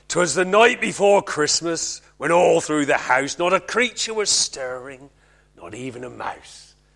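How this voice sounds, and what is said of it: Put-on West Country accent. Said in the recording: “I don't know why you do it in a West Country accent”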